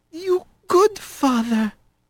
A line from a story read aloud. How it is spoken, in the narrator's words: whispered, his mouth aching